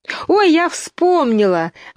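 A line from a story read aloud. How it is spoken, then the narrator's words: Exclaimed. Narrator (Russian): воскликнула Алиса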